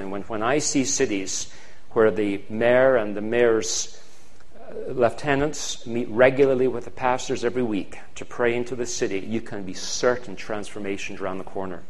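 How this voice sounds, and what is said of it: Fast-speaking Scottish accent. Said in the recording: “I'm speaking a little quickly. That's where the Scottish accent comes in ... Scottish accents are faster”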